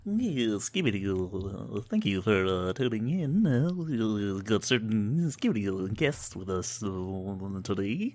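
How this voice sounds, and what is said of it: Popeye voice doing radio host. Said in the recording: “You look like Popeye trying to do NPR. ... Great Popeye.”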